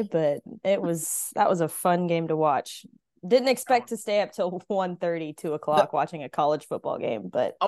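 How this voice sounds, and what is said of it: Slightly cracky, tired voice. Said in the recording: “my voice sounds a little cracky today”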